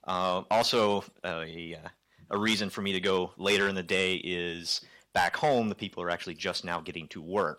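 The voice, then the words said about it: American accent. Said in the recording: “you can tell from my funny accent that I am nowhere from around here. I'm actually flown over from the States.”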